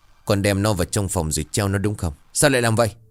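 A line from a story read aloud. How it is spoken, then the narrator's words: Angry. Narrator (Vietnamese): tức giận bảo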